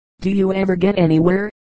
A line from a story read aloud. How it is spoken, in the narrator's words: he asked with a mocking laugh